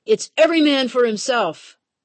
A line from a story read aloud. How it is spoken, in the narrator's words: captains hollered